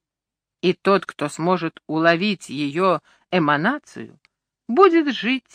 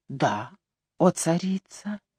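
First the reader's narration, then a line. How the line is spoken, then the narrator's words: Quiet. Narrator (Russian): тихо произнес я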